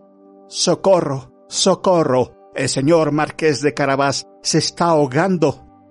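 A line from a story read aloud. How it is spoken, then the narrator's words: Cat shouting with full force. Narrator (Spanish): el gato se puso a gritar con todas sus fuerzas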